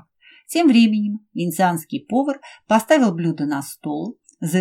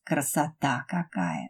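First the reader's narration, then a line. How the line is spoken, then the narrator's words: Admiring whisper. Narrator (Russian): восхищенно прошептала Ася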